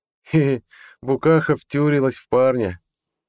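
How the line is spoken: Gleeful guffaw. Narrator (Russian): радостно заржал Харальд

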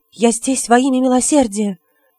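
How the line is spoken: Timid reply. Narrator (Russian): робко отвечала Касильда

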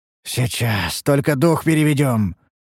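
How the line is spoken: Hoarse reply. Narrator (Russian): хрипло откликнулся я

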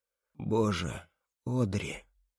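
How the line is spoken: Hoarse, forced out. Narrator (Russian): хрипло выдавливаю я

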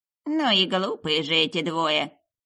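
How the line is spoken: Quiet grumble. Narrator (Russian): Проворчала она тихонько

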